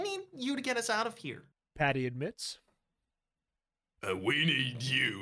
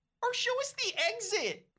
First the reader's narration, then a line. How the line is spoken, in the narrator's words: Patty cries